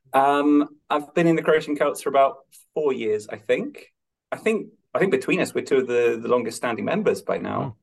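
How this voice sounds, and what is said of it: Non-Irish accent. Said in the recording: “you can hear that I'm not Irish by my accent.”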